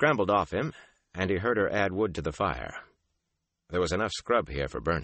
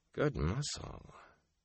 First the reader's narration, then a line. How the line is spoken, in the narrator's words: murmuring